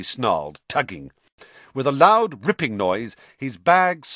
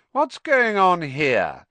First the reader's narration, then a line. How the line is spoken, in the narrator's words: came the cold, drawling voice of Draco Malfoy